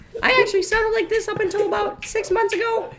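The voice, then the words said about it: Obnoxiously high-pitched voice. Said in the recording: “obnoxiously high voice”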